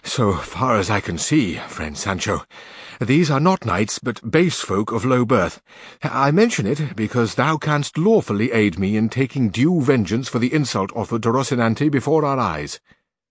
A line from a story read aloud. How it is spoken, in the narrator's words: Don Quixote and Sancho came up panting, and said Don Quixote to Sancho